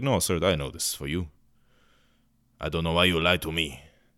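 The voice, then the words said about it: Vague put-on European accent. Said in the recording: “I don't know where my accents are coming from today. They're all coming from Europe somewhere.”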